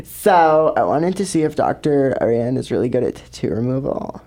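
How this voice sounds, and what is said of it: Imitates another person's voice. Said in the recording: “I'm going to do an impression of her.”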